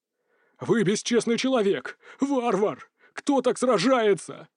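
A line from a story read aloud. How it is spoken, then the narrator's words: Exclamation. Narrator (Russian): воскликнул Ренье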